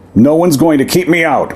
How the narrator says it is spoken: Timos Pietrogo roared

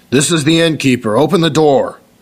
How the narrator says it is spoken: someone shouting

